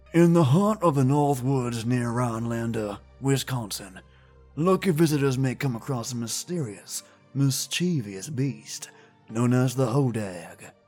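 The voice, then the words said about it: Grizzled storyteller voice. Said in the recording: “I'll read its description in a grizzled voice,”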